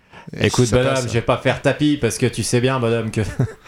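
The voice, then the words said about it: Imitates another person's voice. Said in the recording (French): “C'est Bernard Tapie ... Bon, l'accent.”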